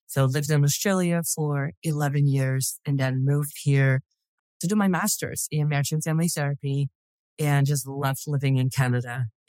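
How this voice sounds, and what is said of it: Dutch-accented English. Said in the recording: “I'm originally from the Netherlands. And so hence my strange accent.”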